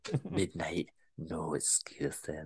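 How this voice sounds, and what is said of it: Weak put-on Scottish accent, creepy. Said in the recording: “I creeped myself out saying that ... that's a better Scottish accent than I'm portraying right now”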